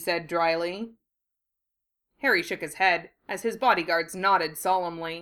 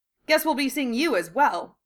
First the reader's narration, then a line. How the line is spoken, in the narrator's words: he said cheerfully